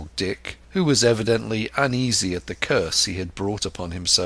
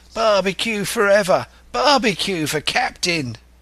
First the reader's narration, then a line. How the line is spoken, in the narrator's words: they cried